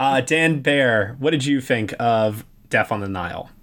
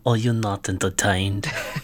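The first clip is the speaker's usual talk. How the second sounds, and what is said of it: Hercule Poirot character voice. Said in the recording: “your Poirot impression”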